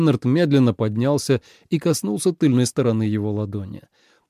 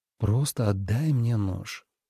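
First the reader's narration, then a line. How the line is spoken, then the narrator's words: Soft whisper. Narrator (Russian): мягко прошептал Лен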